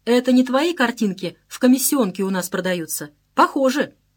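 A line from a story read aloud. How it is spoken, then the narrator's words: Laughing remark. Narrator (Russian): посмеялся, сказал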